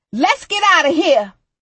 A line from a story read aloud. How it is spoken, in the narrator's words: someone shouted